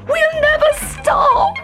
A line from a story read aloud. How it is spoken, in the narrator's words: howled Koshka